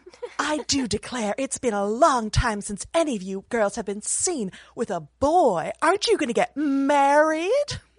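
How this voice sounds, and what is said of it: Impersonates a fussy mother character. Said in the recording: “Mrs. Bennet ... often impersonated. Would you like to give your best impersonation of that impersonation”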